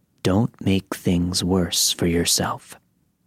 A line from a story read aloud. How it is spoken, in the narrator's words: in a more hushed voice, he said